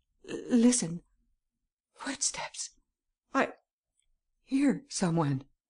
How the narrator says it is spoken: the young girl suddenly spoke and stammered

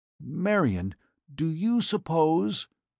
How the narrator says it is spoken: Cort said hoarsely

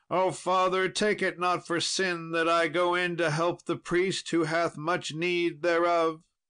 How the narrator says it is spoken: Sir Lancelot cried

